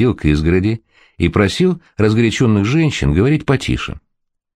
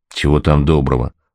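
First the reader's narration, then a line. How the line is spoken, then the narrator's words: Grumbling, landlord. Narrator (Russian): буркнул домовладелец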